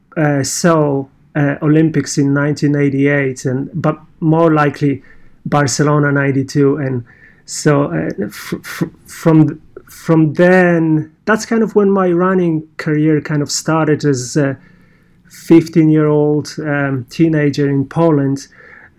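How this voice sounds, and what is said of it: Polish accent. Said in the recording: “You may guess my accent, I'm Polish”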